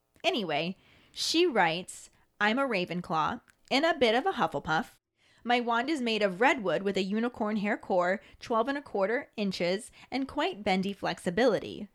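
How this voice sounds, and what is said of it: American accent. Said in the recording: “my American accent does not want to make that sound.”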